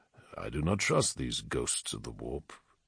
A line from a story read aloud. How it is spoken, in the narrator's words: Telemachon murmured